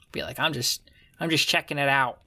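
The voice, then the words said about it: Imitates another person's voice. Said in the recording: “That's my Joe Pesci impression.”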